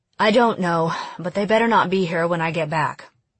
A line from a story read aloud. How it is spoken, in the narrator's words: She sighed and said